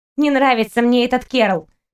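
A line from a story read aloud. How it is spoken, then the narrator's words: Grumbling. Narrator (Russian): проворчал Лойки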